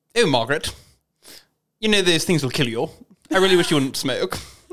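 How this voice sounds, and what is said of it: Imitates the Queen's accent. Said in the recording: “accent ... It's the queen from The Crown. Specifically, like kind of Claire Foy. No, it's kind of Claire Foy, but Olivia Colman ... That's really good.”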